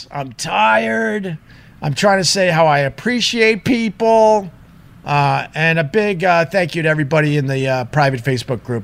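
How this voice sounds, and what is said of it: Hoarse, tired voice. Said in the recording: “My voice is so hoarse.”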